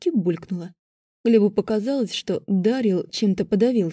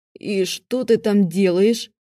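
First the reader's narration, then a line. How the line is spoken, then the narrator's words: Choked question. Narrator (Russian): задушенным голосом спросил он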